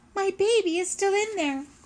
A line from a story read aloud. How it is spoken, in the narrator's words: cried a mother hare